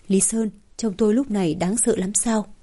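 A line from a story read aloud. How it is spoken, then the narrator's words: Soft laugh, then question. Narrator (Vietnamese): Hoa Ngọc Thành chỉ khẽ cười rồi lập tức hỏi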